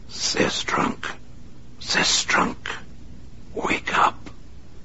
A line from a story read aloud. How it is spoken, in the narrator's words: dialed the disc to its lowest setting, then whispered quietly